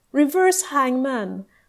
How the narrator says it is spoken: Kabir riposted cheerfully

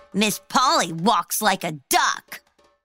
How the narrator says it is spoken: Bobby leaned over to the girl next to him and snorted

